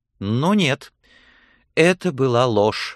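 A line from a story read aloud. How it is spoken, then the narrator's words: Exclaiming. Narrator (Russian): воскликнула она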